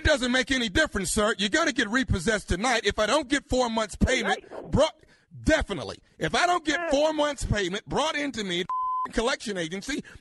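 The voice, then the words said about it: Screaming angrily over the phone. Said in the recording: “stop screaming”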